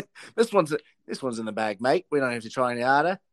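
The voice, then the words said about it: Put-on Australian accent. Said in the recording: “I don't know why he became Australian there. ... That's actually the best Australian accent I've ever done. It's the only time I'm not trying.”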